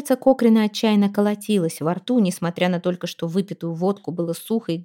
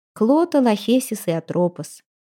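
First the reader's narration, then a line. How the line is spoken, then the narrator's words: Even tone. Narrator (Russian): ровным тоном подсказала Пламтри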